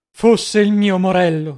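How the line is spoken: Deeply moved exclamation. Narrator (Italian): esclamò il visconte vivamente commosso

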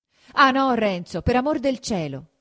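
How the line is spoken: Shouting. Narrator (Italian): gridò Lucia

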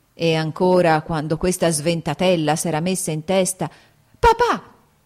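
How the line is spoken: Shouted. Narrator (Italian): gridò Kitty

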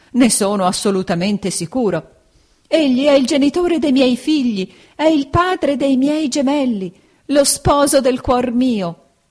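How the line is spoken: Struggling, exclaiming woman. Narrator (Italian): esclamava la signora Micawber

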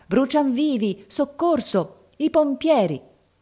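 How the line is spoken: Crowd shouting. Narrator (Italian): La folla gridava

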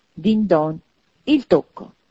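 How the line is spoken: Triumphant exclamation. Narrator (Italian): esclamò Scrooge trionfante

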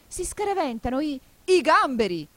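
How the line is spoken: Griffin yelling wildly. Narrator (Italian): urlò il grifone saltando come un matto

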